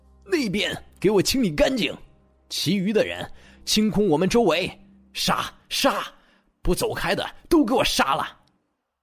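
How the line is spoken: Gritted-teeth roar. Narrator (Chinese): 他一咬牙，指着那个方向吼道

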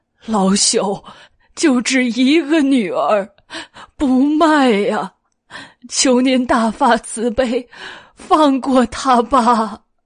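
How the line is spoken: Old man weeping. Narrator (Chinese): 老翁哭道

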